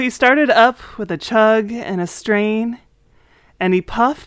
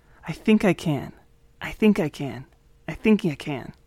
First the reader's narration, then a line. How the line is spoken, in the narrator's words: his face blushed red as he softly said